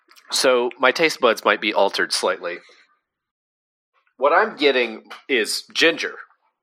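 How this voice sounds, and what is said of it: Voice sounds a little sick. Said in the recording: “if you can't tell from my voice, I am a little sick.”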